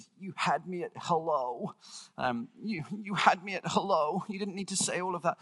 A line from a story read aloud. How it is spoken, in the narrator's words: she tearfully says